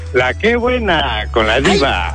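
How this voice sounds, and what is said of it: Radio announcer voice. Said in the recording (Spanish): “esa voz de locutor”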